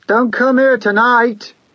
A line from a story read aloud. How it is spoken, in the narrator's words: yelled